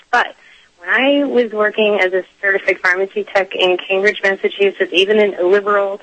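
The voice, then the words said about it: Voice affected by illness. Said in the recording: “It's just a virus, so I apologize for my voice.”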